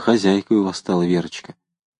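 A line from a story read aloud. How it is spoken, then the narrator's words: Quiet. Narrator (Russian): проговорил негромко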